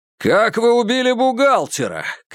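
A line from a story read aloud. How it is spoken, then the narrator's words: Shouted question. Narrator (Russian): крикнул Курц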